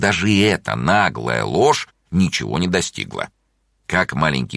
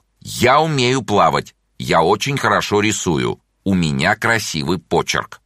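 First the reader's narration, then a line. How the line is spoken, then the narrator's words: Fairly loud. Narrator (Russian): довольно громко сказал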